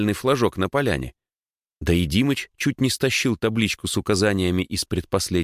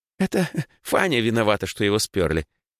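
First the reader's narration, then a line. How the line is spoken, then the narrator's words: Giggling girl. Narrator (Russian): хихикнула одна из рыжих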